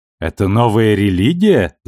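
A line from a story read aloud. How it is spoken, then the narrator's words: Laughing. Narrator (Russian): засмеялась Анна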